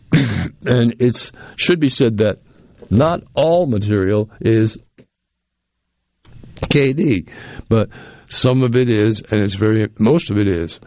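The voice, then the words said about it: Hoarse, fading voice with coughing. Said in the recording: “I'm having a little coughing fit right here ... I'm losing my voice.”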